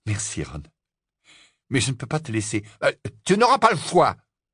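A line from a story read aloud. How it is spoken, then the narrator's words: Fierce retort. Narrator (French): répliqua Ron d'un ton féroce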